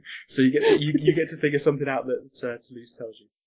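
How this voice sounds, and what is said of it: Usual voice. Nothing is said of it.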